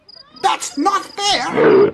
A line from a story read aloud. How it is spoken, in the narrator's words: shouted the monkey